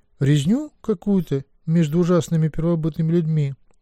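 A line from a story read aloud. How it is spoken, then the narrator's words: Timid. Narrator (Russian): робко сказала Теллери, дочь Тангвен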